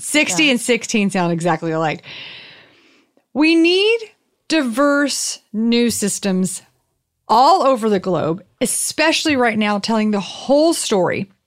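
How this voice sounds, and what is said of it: Southern American accent. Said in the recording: “It was my southern accent.”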